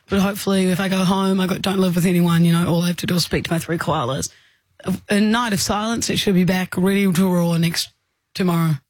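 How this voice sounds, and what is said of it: Damaged, strained voice. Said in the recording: “My voice is fucked ... I reckon it's sounding a little bit better.”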